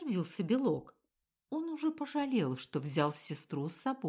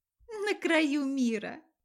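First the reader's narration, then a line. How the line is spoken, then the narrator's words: Giggling. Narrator (Russian): опять хихикнула Ивка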